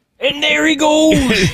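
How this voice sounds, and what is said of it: Imitates another person's voice. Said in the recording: “that's our Al Michaels impersonation”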